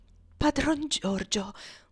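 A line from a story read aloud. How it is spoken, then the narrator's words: Faint weak voice. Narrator (Italian): disse Tom parlando con voce fievole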